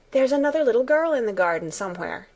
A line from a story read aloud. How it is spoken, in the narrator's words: Alice asked eagerly